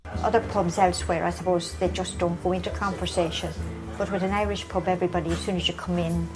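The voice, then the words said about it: Irish accent. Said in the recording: “Here's an example of that Irish accent, spoken by two women ... beautiful Irish accents”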